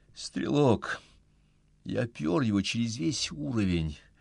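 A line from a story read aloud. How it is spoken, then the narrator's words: Weary. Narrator (Russian): устало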